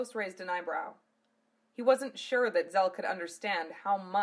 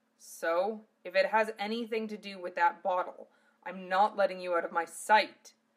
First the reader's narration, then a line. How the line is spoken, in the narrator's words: Zell said sternly